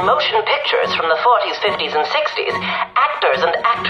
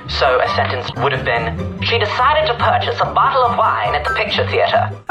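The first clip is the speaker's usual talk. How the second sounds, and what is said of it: Transatlantic accent, crisp enunciation. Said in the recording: “This accent is actually referred to as the transatlantic accent ... adopting an accent with both American and British traits”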